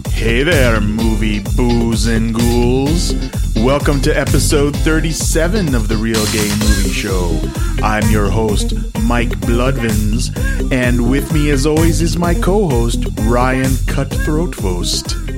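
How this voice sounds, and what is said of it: Spooky put-on host voice. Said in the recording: “spooky voice ... mask voice”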